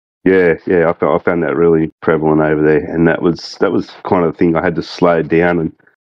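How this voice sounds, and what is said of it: Thick Australian accent. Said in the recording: “you've got a good Aussie accent, mate. You really do ... You've got a nice thick Aussie accent”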